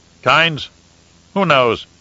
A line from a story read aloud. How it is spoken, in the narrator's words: the Baron snorted